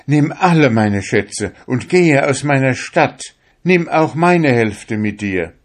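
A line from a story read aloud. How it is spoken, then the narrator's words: Trembling, pleading emperor. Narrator (German): Der Kaiser zitterte, flehte mich an und sagte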